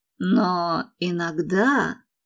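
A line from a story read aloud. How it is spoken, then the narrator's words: Muttered. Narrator (Russian): пробормотал он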